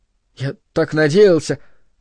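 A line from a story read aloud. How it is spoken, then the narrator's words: Pleading, sorrowful babble. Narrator (Russian): лепетал он, глядя на верховного фордослужителя молящими и горестными глазами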